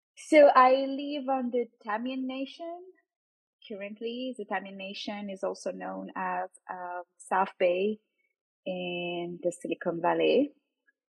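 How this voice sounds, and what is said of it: French accent. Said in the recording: “My nationality is French. You can probably hear my accent.”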